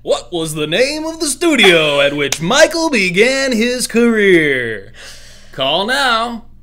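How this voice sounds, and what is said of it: Exaggerated announcer voice. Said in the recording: “crazy announcer voice”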